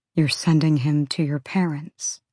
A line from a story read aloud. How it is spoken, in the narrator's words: he said quietly